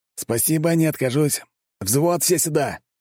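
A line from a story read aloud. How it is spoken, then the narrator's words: Loud shout. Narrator (Russian): крикнул Шаров громко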